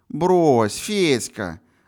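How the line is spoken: Lazy drawl. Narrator (Russian): лениво протянула Паша

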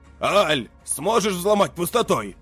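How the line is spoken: Shouting. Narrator (Russian): крикнул он

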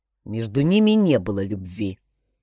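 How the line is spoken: Angry. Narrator (Russian): зло сказал Бергер

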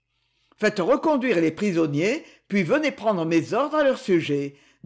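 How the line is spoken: Curt male tone. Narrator (French): dit-il d'un ton bref

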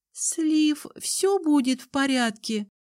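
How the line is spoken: Timid question. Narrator (Russian): робко спросила Тали

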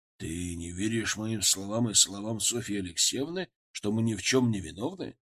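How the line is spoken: Plain question. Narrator (Russian): спросил Голицын

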